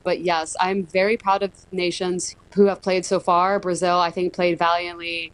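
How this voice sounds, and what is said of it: Hoarse, strained voice. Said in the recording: “my voice is a little bit hoarse. I don't usually sound like this, but that's from all of the screaming ... So my voice is so cooked and it won't recover for a while”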